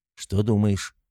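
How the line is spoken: Plain question. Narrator (Russian): спросил комендант Берамора

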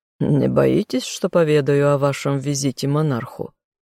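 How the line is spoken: Smirking grunt. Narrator (Russian): хмыкнул Карлтон

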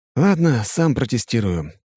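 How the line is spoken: Sighing. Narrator (Russian): говорю я, вздохнув

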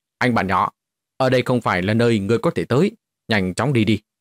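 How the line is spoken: Cold barked English. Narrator (Vietnamese): dùng tiếng Anh quát lạnh nói

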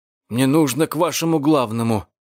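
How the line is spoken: Strained out. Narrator (Russian): выдавил Карбоне

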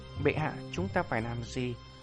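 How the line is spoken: Trembling. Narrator (Vietnamese): Một vài cao tầng kia run rẩy nói

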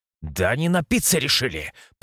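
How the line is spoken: Hiss. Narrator (Russian): прошипел

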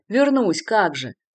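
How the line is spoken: Mocking retort. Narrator (Russian): насмешливо бросил ему Артью

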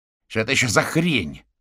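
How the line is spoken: Shouting into phone. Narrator (Russian): кричал в телефон гусеница

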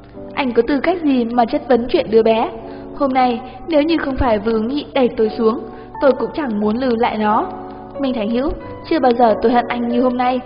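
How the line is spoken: Crying, then loud laughter. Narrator (Vietnamese): Phò Nhiễm khóc rồi bất chợt cười to

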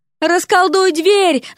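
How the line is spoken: Yelling into ear. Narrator (Russian): заорала Дереку на ухо Вася

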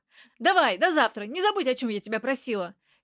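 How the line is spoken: Cheerful, hurried reply. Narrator (Russian): весело и торопливо ответила та, что оставалась в границах квартиры

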